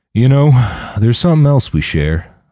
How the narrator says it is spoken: Mike said, his voice low and somber

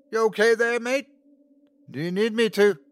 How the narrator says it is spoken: Luke yelled

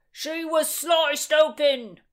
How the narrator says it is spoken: yelled

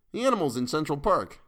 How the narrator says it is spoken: chuckled Curtis

